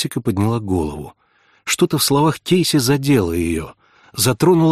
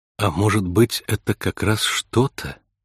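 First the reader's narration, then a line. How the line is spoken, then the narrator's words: Soft suggestion. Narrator (Russian): мягко предположила Кейси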